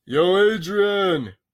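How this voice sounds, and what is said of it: Rocky Balboa impression. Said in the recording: “Nice, great impression.”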